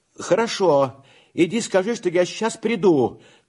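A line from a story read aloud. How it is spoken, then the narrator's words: Shouting. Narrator (Russian): крикнул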